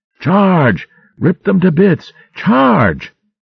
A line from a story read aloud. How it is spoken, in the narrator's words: Ublas could be heard bawling hoarsely